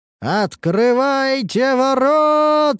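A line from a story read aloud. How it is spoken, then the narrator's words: Shouting with full force. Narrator (Russian): прокричал я изо всех сил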